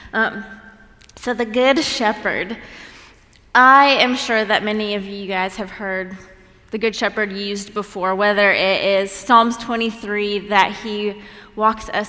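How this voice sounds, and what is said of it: Slightly congested voice. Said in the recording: “I have a little cold”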